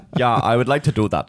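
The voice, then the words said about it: Put-on Germanic-sounding accent. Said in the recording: “That was meant to be a non-accent ... super like, Germanic ... Yeah, like really German ... German”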